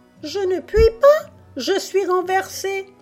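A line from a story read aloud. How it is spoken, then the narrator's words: Squeaking. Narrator (French): couina le rouet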